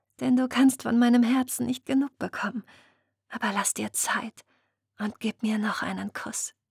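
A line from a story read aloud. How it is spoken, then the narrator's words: Purred. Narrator (German): schnurrte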